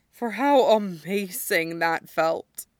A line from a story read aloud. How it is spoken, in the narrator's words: he pants